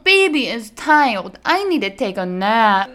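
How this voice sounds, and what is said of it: Exaggerated baby talk voice. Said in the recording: “baby talk ... horrible ... that's how I do it”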